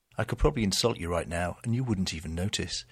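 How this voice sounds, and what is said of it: British accent. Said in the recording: “This really is a British accent.”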